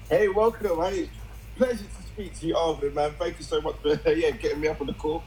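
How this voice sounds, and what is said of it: London English accent. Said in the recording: “I love that accent... Calling from London, England.”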